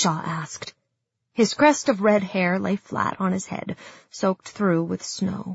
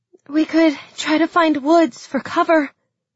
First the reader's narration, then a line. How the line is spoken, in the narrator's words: panted Nadia